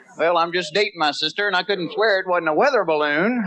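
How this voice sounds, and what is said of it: Southern American accent. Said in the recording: “I am from the South ... the way we talk ... Southern accent”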